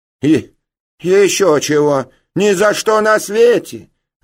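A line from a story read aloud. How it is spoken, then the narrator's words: Shouting, thin shrill cry. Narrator (Russian): закричали сестры, и одна в очках тонко выкрикнула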